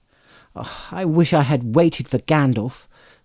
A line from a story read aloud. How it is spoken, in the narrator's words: Frodo muttered